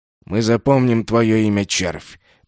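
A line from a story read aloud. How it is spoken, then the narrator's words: Hissing voices. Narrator (Russian): прошипели голоса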